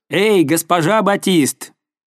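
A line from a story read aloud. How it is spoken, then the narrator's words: Shout from audience. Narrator (Russian): Чей-то голос из публики крикнул еще раз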